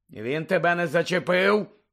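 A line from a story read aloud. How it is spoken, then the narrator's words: Growled. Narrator (Ukrainian): прогарчав Муді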